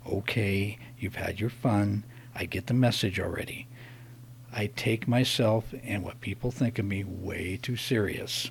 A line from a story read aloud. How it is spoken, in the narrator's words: I gritted my teeth, and under my breath I said